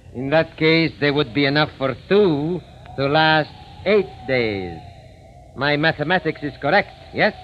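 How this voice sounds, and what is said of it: Fake foreign accent. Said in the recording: “you can forget that phony accent”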